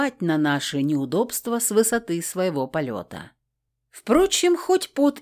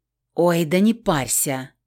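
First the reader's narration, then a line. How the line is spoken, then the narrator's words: Dismissive snort. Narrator (Russian): фыркнула я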